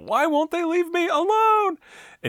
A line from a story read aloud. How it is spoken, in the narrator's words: he's just going crazy and he screams